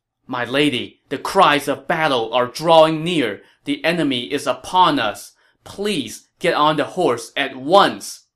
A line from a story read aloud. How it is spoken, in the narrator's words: Zhao Yun pleaded